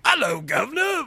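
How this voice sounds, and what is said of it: Bad put-on London accent. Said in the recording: “can you do a London accent? ... Of course I can do a London accent. ... that is Dick Van Dyke and Mary Poppins. Like, that's awful.”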